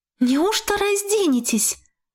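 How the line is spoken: Encouraged exclamation. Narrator (Russian): воскликнула ободренная я

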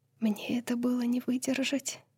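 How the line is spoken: Female whisper. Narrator (Russian): прошептала она

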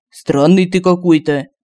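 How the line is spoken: Scoffing snort. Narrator (Russian): Хмыкнул Семен

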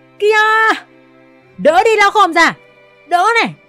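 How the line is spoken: Loud shout. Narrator (Vietnamese): Toàn hét lớn

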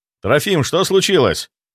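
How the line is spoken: Shout. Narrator (Russian): крикнул я ему

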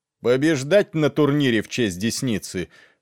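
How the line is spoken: Shout over cheering crowd. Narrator (Russian): выкрикнул лорд Берис под восторженные вопли толпы

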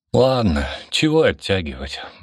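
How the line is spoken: Sighed. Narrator (Russian): вздохнул он

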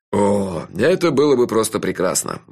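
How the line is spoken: Sighed. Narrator (Russian): вздохнул шеф

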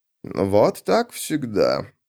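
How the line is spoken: Grumbling. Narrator (Russian): проворчал

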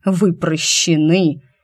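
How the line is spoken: Icy, through gritted teeth. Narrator (Russian): Алир процедил тоном холоднее льющейся с небес воды

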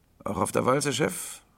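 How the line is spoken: Hoarse boy's question. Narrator (German): fragte der Junge heiser

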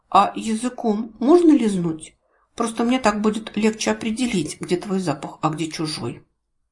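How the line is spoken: Embarrassed quiet question. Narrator (Russian): смущенно кашлянула и негромко спросила

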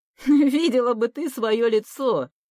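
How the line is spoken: Laughing. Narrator (Russian): Подруга хохотнула

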